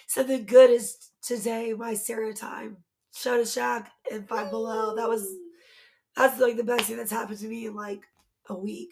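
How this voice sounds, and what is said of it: Raspy, fading voice. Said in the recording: “I'm slowly losing my voice even more... really, really raspy today”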